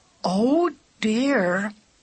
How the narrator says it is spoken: said Katie in a melancholy voice

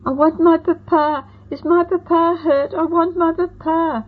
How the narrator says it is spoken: little John Quincy sobbed into my skirts

